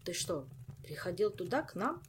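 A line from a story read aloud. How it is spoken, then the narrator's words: Plain question. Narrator (Russian): спросил королевский шут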